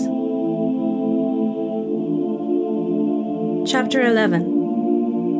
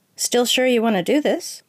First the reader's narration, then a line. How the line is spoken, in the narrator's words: she asked